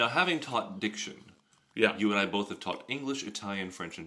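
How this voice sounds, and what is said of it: Usual voice. Nothing is said of it.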